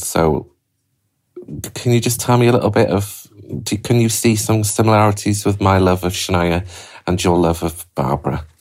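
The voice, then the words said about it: Lilting accent. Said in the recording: “I love your accent. I love the lilt of your voice.”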